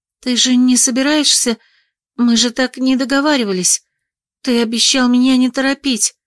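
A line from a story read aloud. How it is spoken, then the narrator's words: Ashamed mumbling. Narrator (Russian): замямлила я, сгорая от стыда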